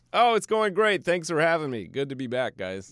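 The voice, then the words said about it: Sunny, upbeat podcast-host voice. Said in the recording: “I said that with such a that was my like sunny. I'm doing a podcast voice ... I would do that in a much more sad voice”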